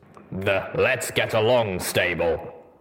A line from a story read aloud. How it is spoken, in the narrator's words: he snorted derisively